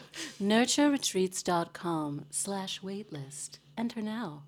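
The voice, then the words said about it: Announcer-style commercial voice. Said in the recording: “I could say it in my commercial voice.”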